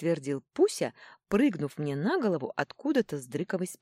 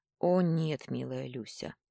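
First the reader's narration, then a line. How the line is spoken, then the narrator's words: Sighing. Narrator (Russian): вздохнул тот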